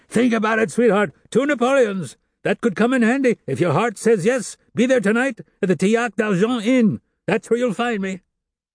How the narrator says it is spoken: the hoarse voice of the man shouting

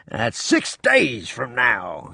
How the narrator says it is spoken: he said in a jubilant voice

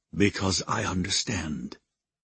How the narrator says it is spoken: he murmured

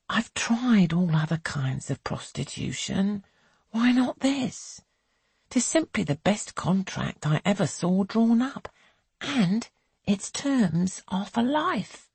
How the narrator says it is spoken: Belle sighs

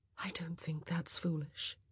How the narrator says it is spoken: Kate said softly

